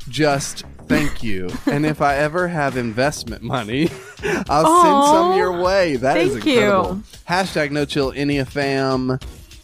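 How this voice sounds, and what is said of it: Southern American accent. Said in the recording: “I love the accent ... Your anyway, southern accent ... My southern accent.”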